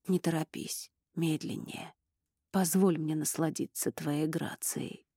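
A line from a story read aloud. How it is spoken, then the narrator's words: Enchanted whisper. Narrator (Russian): прошептал Эрик, зачарованный зрелищем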